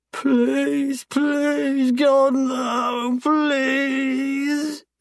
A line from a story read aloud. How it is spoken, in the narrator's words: he sobs